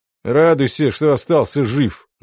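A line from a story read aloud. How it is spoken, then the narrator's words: Grim. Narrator (Russian): мрачно сказал Волда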